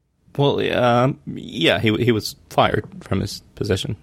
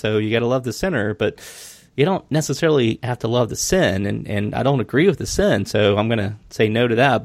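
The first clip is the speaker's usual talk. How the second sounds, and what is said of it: Put-on Southern accent. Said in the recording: “I love how you get a Southern accent when you say that.”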